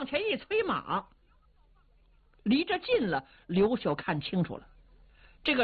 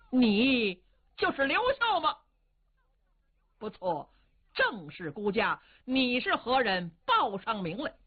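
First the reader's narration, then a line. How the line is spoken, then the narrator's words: Angry. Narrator (Chinese): 李福志是怒容满面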